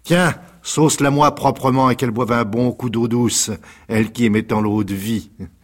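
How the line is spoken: Shouting. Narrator (French): cria

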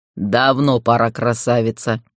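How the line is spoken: Chuckling. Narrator (Russian): хохотнул полуторакрылый

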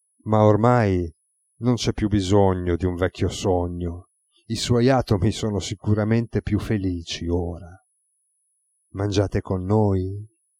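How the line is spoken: Murmured. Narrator (Italian): mormorò

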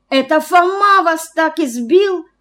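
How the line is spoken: Exclamation. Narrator (Russian): воскликнула Лиза

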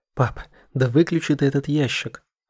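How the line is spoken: Exclaimed. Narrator (Russian): воскликнула Саша

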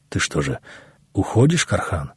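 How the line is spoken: Sad but calm, from behind. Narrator (Russian): раздалось вдруг за его спиной печально, но удивительно спокойно

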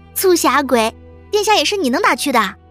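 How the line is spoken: Laughing. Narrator (Chinese): 谷雨笑嘛

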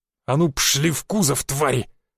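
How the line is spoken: Growling. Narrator (Russian): прорычал он

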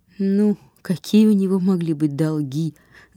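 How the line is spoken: Laughing. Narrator (Russian): засмеялся Брюнетто

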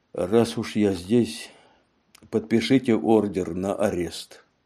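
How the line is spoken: Sigh. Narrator (Russian): вздохнул Мегре

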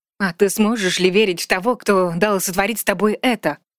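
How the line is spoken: Growled. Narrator (Russian): прорычала

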